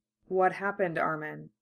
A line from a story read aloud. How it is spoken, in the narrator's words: Mikasa asks quietly